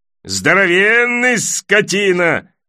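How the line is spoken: Shouting. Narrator (Russian): кричал другой

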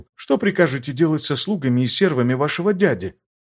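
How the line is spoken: Quiet reply. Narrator (Russian): также тихо ответил

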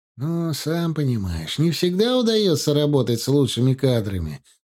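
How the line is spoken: Sigh. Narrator (Russian): вздохнул Сатчан

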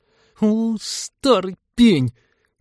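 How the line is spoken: Angry girl's hiss. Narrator (Russian): сердито прошипела девушка

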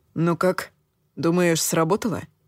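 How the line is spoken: Timid question. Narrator (Russian): робко поинтересовался он

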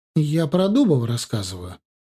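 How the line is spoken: Indignant reply. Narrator (Russian): возмущенно ответила соседка

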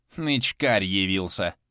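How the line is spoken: Grumbled. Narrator (Russian): пробурчал Моня

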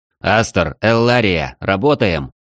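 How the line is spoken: Barked command. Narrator (Russian): рявкнул Борланд

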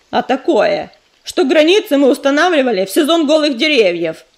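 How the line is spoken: Snapping retort. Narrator (Russian): огрызнулся чернозвезд

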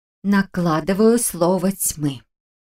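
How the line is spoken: Trained, projected voice. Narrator (Russian): поставленным голосом объявила я

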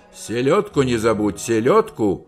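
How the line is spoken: Commanding shout. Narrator (Russian): Слезкин крикнул командирским голосом

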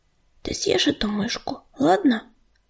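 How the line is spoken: Whisper. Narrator (Russian): прошептал он

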